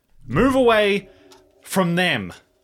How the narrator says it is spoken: shout out and say

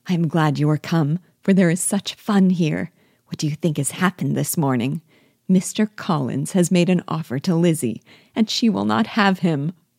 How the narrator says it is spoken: Lydia, who, flying to her, cried in half a whisper

